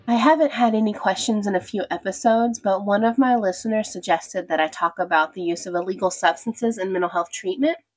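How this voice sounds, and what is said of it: Sick, not-quite-normal voice. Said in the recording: “coming down with COVID ... I'm still not back to baseline, so that's why my voice isn't where it usually is”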